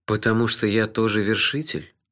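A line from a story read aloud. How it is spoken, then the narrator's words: Dejected voice. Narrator (Russian): упавшим голосом спросил я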